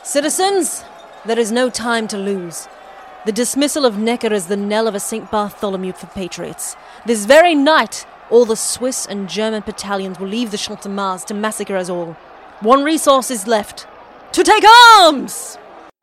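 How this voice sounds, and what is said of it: Put-on British accent. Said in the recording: “I don't know why he had a British accent, and personally, I think Luke Hemsworth really let himself down with the performance there.”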